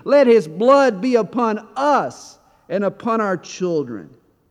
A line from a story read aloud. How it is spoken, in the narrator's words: the Jews as they are shouting and screaming